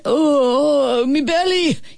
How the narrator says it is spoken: he wailed

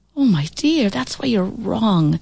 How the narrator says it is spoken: she said wistfully

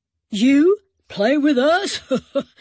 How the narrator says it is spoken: Big Earl laughed

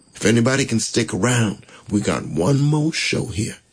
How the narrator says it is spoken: she said

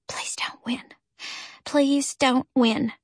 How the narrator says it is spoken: I whispered to myself

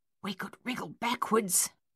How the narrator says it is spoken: Coralie whispered

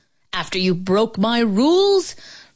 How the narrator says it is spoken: Brother Coin roared

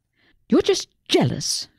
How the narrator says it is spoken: Susie snapped

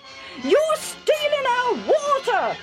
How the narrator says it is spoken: they shouted

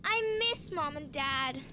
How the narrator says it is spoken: sighed Maddie, a little overwhelmed

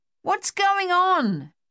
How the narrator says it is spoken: Dave yelled in Luther's ear

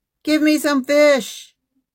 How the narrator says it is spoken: He shouted at them

